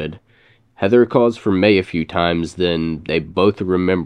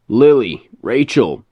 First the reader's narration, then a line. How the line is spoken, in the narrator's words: Heather shouts